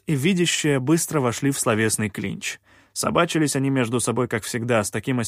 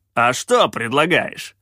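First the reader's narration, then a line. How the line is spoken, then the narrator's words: Snapping. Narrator (Russian): огрызнулся Калаан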